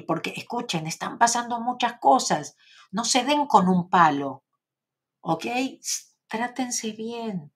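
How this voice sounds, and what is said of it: Argentine Spanish accent. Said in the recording (Spanish): “acento argentino? ... con mi acento”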